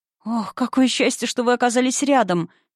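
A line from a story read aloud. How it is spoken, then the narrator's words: Sobbing harder. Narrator (Russian): Айза всхлипнула сильнее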